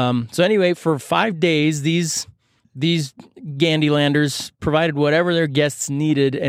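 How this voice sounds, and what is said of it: Usual voice. Nothing is said of it.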